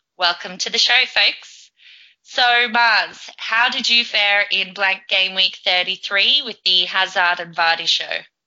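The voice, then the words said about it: Feminine voice, slight Australian accent. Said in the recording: “a more feminine, slightly Aussie accent”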